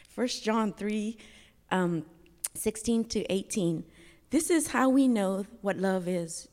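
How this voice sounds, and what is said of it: Shaky, emotional voice. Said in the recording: “my voice is shaky”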